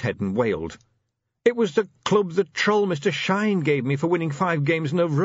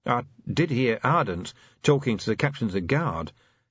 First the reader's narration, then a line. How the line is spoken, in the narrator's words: Helmclever murmured